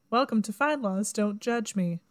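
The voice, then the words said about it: Slow, deliberate NPR radio voice. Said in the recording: “talking slower while you're trying to do your NPR voice”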